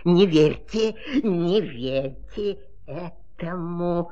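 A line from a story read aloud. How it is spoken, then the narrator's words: Grumbling. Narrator (Russian): проворчало слово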